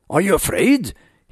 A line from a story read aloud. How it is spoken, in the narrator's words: he asked